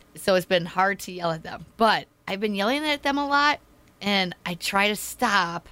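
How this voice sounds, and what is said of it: Hoarse, strained voice. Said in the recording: “my throat is sore. Can you tell? ... lost your voice ... I've been having a horrible cough. I've been losing my voice”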